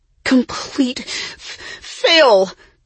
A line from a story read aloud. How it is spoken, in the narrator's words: Jessie wheezed